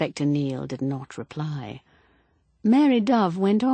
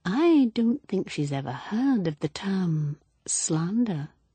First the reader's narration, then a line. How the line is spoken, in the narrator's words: Mary Dove murmured softly